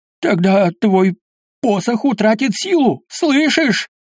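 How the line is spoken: Shouted after him. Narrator (Russian): прокричал ему в спину Гэндальф

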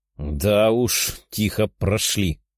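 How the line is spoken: Demon's grumble. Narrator (Russian): проворчал демон

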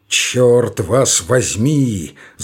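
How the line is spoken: Grumbling growl. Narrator (Russian): заворчал зверь

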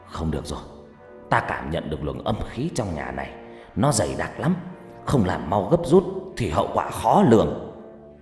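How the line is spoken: Harsh stern voice. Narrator (Vietnamese): ông trừng mắt gằn giọng

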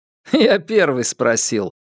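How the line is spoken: Laughing. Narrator (Russian): рассмеялся Соломон

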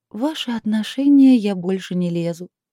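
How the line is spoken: Sad reply. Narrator (Russian): отозвалась она грустно

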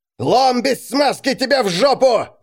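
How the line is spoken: Yell. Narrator (Russian): заорал Рихард

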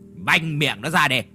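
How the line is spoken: Angry shout. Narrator (Vietnamese): Phú Thông trừng mắt rồi quát

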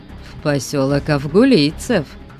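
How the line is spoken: Calm reply. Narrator (Russian): спокойно ответил похититель

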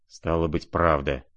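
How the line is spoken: Quiet, to himself, lost. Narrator (Russian): проговорил он тихо и как бы про себя, с совершенно потерянным видом

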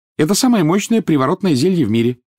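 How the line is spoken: Plain. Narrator (Russian): сказала Гермиона

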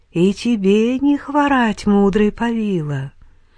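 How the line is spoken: Singsong voice. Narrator (Russian): сказала она певучим голосом

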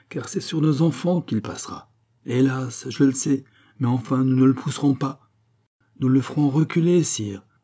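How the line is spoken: Exclaiming. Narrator (French): s'écria Marie-Antoinette

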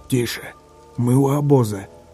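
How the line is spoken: Hiss. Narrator (Russian): Чистоплюй что-то прошипел

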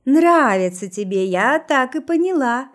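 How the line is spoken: Loud cheerful laugh. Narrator (Russian): рассмеялась она весело и громко

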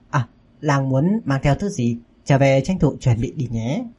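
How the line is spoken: Gentle smiling voice. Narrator (Vietnamese): mỉm cười dịu dàng nói

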